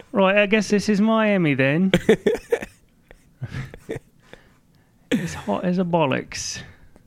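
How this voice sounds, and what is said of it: Poor attempt at British accent. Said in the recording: “I can't do a good British voice.”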